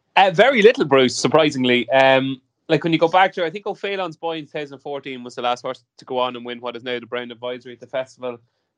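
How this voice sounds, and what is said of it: Irish accent. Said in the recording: “an Irish accent ... your dulcet tones”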